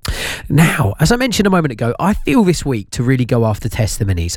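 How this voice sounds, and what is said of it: Slightly husky, recovering voice. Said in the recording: “My voice is coming back. Yesterday, I sounded quite husky. And I said today I would be slightly less Deirdre Barlow... It's not fully back”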